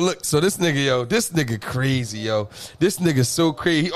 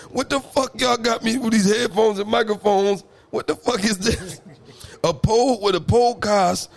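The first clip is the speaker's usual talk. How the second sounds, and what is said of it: Imitates his father's voice. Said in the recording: “You gotta use the voice... your dad voice”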